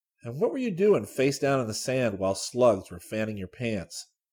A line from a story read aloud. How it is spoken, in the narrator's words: Scotty chuckled